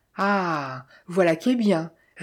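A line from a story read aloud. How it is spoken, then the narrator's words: Sneering bass voice. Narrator (French): ricana la voix de basse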